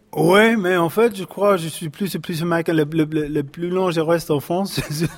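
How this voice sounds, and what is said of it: American accent speaking French. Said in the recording (French): “je garde mon accent, quand j'ai gardé. C'est pas exprès... t'es là depuis 14 ans, tu parles comme une vache enceinte”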